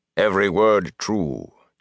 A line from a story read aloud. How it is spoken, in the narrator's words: Tom said blandly, from one who lived it